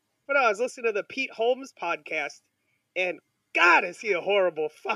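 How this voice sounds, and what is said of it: Usual voice. Nothing is said of it.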